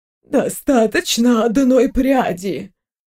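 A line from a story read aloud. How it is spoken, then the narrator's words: Convulsive exhale. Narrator (Russian): Виктория судорожно выдохнула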